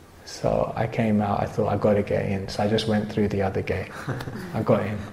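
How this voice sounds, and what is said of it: London English accent. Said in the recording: “they kind of heard my accent and realized I was from London”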